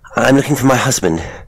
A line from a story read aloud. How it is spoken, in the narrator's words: said, still panting